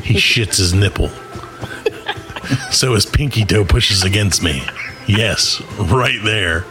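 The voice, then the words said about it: Sensual, seductive reading voice. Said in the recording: “I'm going to do it in a sensual voice. I'm going to try to do it in a sensual voice.”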